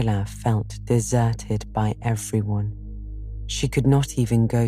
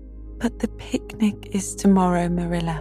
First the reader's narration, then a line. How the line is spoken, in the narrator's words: pleaded Anne